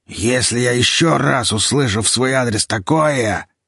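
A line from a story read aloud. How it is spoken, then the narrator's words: Hoarse, threatening. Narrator (Russian): Виталик произнес хриплым, угрожающим голосом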